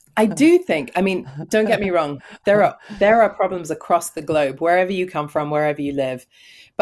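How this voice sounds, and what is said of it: London accent. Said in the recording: “with that London accent ... you have a great accent”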